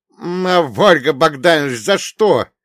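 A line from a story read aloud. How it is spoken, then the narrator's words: Angry shout. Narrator (Russian): зло выкрикнул я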